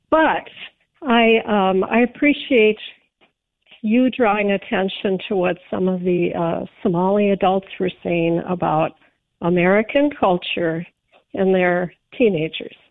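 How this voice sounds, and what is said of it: Rough, strained voice. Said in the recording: “apologize for my voice. I've got a bit of a cough and allergies going on.”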